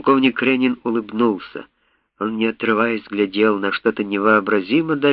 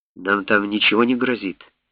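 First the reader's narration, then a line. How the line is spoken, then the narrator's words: Plain question. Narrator (Russian): спросил профессор Томпсон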